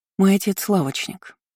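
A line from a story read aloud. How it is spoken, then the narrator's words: Calm answer. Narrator (Russian): ответила спокойно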